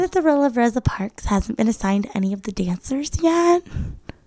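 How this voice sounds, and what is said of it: Imitates another person's voice. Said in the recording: “I'm going to get into my 900 voice ... I pride myself on my Jill Vertez impression.”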